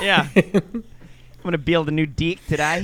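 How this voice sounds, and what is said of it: Put-on New Zealand accent. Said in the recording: “I can't do a good Australian accent. I just know that in New Zealand, sometimes E's are pronounced I.”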